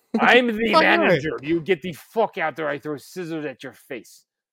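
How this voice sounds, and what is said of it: Put-on Russian accent. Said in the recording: “That was your Russian accent?”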